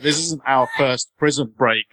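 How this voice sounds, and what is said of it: Slow, weird affected voice. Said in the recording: “affects this really weird voice ... He talks really slow.”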